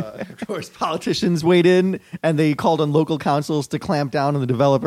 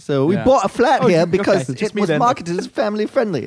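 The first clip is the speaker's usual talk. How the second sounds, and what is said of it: Put-on British accent. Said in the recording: “she should have had a British accent.”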